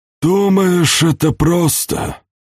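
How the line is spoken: Sighing. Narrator (Russian): вздохнул Бодуэн

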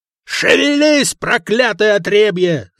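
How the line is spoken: Roared. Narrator (Russian): взревел капитан

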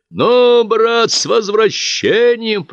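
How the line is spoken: Thundering commander's voice. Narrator (Russian): прогремел над снегом голос командира Ивощукина

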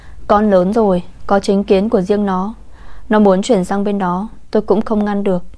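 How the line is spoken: Sighing, grandmother. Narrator (Vietnamese): Bà nội Trần thở dài

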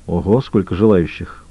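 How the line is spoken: Muttering. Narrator (Russian): пробормотал он

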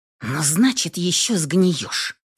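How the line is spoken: Hateful hiss. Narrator (Russian): прошипела я, наполняясь ненавистью

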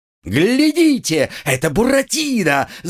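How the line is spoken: Shouted. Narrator (Russian): закричал Арлекин

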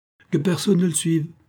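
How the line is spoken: Authoritative exclamation. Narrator (French): s'écria Robin avec autorité

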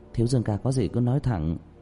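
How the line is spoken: Shy blushing. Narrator (Vietnamese): Đàm Tiểu Tuệ mặt khẽ chuyển hồng, cúi đầu

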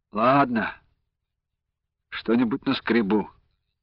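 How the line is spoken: Sigh. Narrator (Russian): вздохнул Андрей

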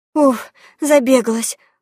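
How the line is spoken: Breathless exhale. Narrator (Russian): выдохнула

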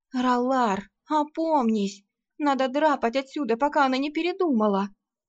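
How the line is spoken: Pleading. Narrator (Russian): Взмолилась Арсана

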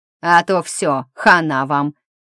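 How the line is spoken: Nasal voice. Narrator (Russian): информативно ответил гнусавый

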